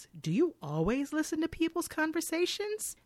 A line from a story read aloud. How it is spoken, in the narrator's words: Isabel playfully accuses